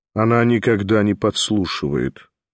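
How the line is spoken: Cold remark. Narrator (Russian): холодно заметил Николай Всеволодович

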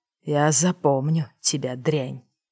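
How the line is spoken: Hiss. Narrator (Russian): прошипел он

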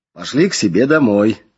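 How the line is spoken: Joyful reply. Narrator (Russian): радостно ответил мой духовник

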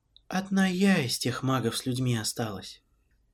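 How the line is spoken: Not very sad voice. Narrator (Russian): продолжила пресветлая Лариан не самым грустным голосом

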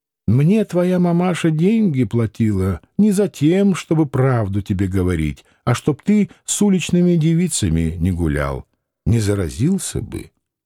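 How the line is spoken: Even, absent-minded voice. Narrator (Russian): Девушка ответила ровным голосом как бы думая не о том, что говорит

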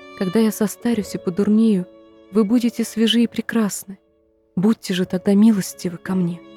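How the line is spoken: Whispered in ear. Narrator (Russian): шепнула ей на ухо

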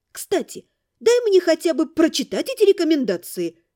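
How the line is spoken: Exclaimed. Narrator (Russian): воскликнула я

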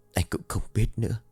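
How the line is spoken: Whispered reply. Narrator (Vietnamese): thì thào đáp

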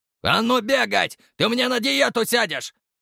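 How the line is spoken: Shouted. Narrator (Russian): крикнул Самсон

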